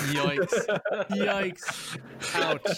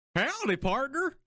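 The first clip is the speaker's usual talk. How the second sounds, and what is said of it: Stereotypical put-on southern accent. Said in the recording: “a good southern accent's pretty soothing. But I just do the stereotypical one.”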